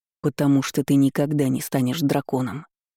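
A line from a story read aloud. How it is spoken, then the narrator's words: Icy declaration. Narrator (Russian): заявил он ледяным голосом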